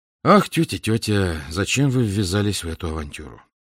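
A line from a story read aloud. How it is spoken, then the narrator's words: Serious and sad. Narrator (Russian): Она ответила серьезно и грустно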